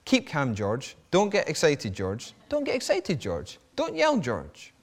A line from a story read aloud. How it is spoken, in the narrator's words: the man kept repeating softly